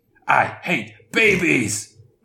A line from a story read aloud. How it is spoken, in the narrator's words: Grouchy roared